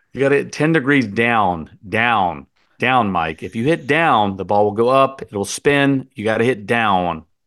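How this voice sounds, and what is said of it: Impression of an opinionated golf teacher. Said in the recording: “he's a very opinionated teacher. He's a big personality ... Can you do your impersonation?”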